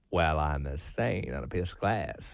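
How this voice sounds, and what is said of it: Put-on Deep South accent. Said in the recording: “got a deep south accent.”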